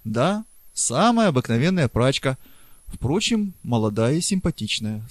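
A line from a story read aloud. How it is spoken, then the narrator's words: Calm. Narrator (Russian): спокойно ответил Преста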